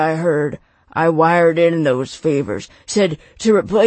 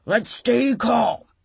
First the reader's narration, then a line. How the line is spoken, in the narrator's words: Knox roared